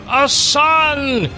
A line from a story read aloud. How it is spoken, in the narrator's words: shouted Melchior